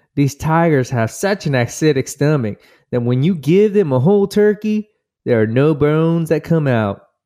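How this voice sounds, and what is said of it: Put-on accent, done badly. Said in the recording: “That's a pretty bad accent.”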